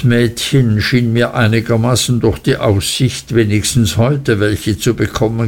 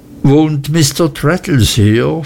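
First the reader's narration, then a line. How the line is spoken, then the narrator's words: Plain question. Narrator (German): fragte ich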